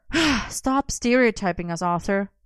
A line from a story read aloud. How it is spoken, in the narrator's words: Merlin sighed